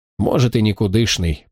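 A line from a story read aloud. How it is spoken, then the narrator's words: Indifferent grumble. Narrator (Russian): проворчал он безразлично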